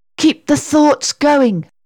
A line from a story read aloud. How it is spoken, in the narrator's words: Sarah gasped